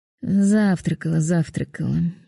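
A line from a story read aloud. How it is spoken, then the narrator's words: Housekeeper grumbling under breath. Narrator (Russian): пробурчала домработница себе под нос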